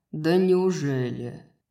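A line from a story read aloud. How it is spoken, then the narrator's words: Mocking question. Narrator (Russian): насмешливо спросил Хант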